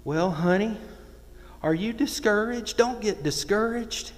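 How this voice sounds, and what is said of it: Put-on Southern accent. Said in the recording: “I'm going to try to do a southern accent for y'all.”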